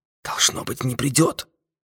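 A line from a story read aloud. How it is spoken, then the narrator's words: Whispered. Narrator (Russian): шепнул один из агентов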